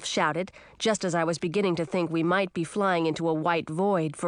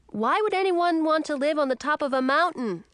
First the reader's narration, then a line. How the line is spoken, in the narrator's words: I shouted